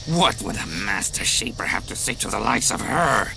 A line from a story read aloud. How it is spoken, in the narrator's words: Quad sneered